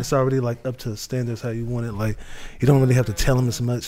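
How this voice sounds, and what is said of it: Smooth, cool, laid-back voice. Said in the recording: “he talks so smooth... that tone of voice... cool and laid back”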